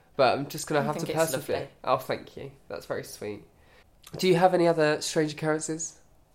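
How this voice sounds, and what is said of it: Croaky, hoarse sick voice. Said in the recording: “my voice hasn't improved from the last podcast. I've still got this weird, croaky, horrible voice.”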